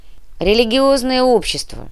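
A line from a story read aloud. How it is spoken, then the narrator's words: Grumbling. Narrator (Russian): буркнул Никита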